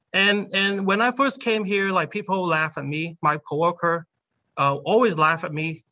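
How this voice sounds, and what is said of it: Non-native English accent. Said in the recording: “There's no way that I can get rid of my accents, even to this day ... I still have an accent”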